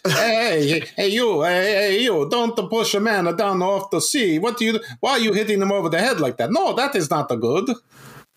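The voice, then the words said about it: Put-on Italian accent. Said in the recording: “Is that a Lake Como accent? ... Yes.”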